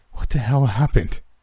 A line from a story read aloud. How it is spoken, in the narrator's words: Jason said as he gasped for breath